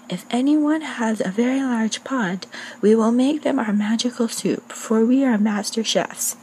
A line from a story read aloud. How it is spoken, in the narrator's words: they both climbed up on the well and yelled loud enough for all to hear